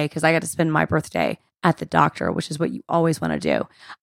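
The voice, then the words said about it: Partly lost, congested voice. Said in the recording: “I lost my voice a little bit, as you can tell. Got a cold or sinus infection.”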